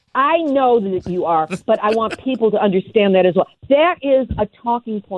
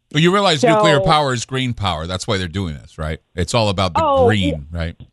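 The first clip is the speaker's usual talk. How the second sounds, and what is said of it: Sarcastic delivery. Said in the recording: “I'm being sarcastic. ... I'm being sarcastic.”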